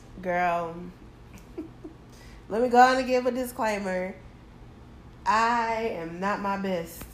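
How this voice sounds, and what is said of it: Sick, rough-sounding voice. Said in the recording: “My voice is going to sound horrible ... I'm going to cough throughout the whole time”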